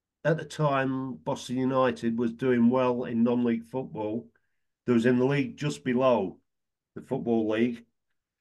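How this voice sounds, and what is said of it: Lincolnshire English accent. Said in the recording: “people can tell by your accent you were ... from ... Lincolnshire”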